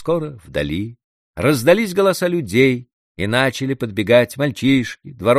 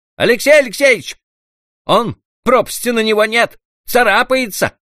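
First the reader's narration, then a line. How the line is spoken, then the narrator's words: Shouted from a distance. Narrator (Russian): кричали оттуда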